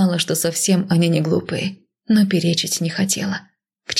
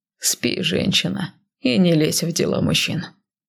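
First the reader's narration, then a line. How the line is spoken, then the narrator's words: Lazy. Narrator (Russian): лениво произнес он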